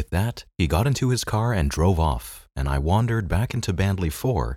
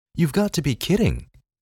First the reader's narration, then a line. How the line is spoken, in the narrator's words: Larry exclaimed